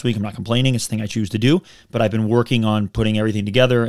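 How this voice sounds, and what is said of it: Worn-out, rough-sounding voice. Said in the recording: “You can hear it in my voice. It's terrible.”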